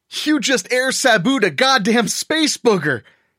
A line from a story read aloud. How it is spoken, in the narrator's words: he shouted